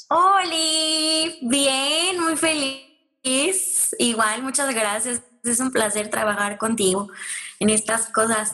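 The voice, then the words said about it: Northern Mexican Monterrey accent. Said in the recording (Spanish): “Me sale el acento regio. ... el acento de mi familia de Mazatlán”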